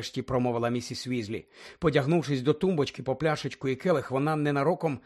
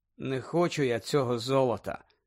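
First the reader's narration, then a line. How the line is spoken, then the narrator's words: Indifferent voice. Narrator (Ukrainian): байдужим голосом сказав Гаррі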